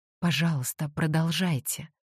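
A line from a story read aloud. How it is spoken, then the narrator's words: Hoarse rasp. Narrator (Russian): прохрипел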